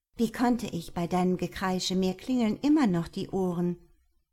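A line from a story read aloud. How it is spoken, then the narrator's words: Laughing retort. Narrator (German): gab ich zurück und musste im selben Moment über meine durchgeknallte Freundin lachen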